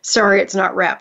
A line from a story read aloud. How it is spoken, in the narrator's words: she said